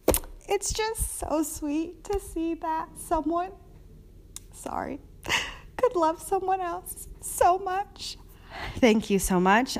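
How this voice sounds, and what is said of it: Tearful, sniffling crying voice. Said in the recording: “I can also cry on demand... provide sniffles in the back... I do a good cry voice.”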